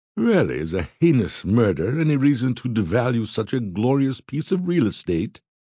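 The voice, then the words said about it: Teasing upper-class British man's voice. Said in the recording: “The words rolled off the man's tongue in a luscious British accent, and with a hint of tease, lending him a cocky James Bond air.”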